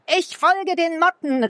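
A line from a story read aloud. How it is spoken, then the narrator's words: Calling out. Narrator (German): rief Milo ihr zu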